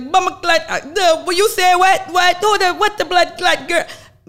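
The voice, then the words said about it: Poor put-on Jamaican accent. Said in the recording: “My Jamaican, Jamaican accent's terrible”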